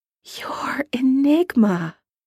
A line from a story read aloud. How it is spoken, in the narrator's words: his voice is hardly more than a whisper when he manages to say